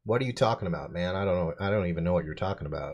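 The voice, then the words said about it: Obvious Canadian accent. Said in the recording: “a pretty obvious accent ... He's from Regina.”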